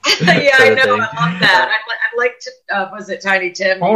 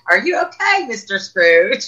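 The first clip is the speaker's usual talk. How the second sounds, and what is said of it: Put-on cockney accent. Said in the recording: “with a cockney accent”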